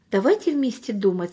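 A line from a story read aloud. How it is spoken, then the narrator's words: Calm old man. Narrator (Russian): сказал спокойно дедушка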